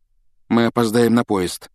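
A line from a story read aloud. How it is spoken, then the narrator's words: Dejected voice. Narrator (Russian): упавшим голосом проговорил он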